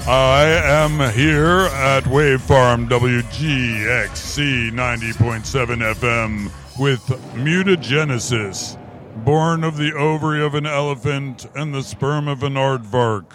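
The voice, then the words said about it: Put-on radio announcer voice. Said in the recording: “practicing my radio voice. Is this good?”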